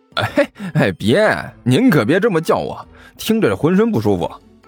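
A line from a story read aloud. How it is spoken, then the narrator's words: Falsely smiling. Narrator (Chinese): 李延都一脸的假笑，说道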